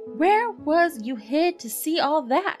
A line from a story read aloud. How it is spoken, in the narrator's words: He cried